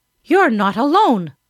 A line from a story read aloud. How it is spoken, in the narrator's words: another cried